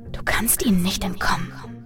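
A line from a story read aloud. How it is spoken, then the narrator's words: Echoing whisper. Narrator (German): flüsterte eine Stimme, die wie ein Echo in meinem Kopf klang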